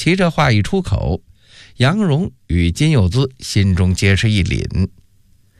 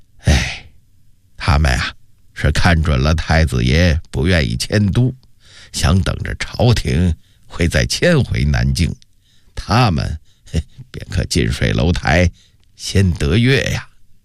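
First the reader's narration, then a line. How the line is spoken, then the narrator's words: Slight sigh. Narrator (Chinese): 杨士奇微微地叹了口气说道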